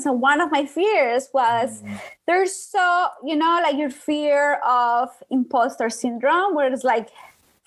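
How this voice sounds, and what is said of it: Colombian accent in English. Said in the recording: “you can hear my accent ... Colombian with an accent, broken English”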